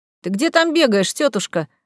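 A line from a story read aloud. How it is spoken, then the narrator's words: Laughing. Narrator (Russian): рассмеялся Игорь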